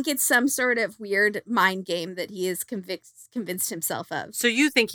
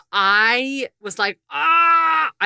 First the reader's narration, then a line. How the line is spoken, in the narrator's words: I screamed out loud